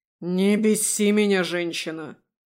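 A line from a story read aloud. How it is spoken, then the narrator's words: Growled. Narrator (Russian): прорычал Давид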